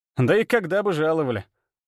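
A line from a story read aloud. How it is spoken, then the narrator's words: Snort. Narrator (Russian): Арсений хмыкнул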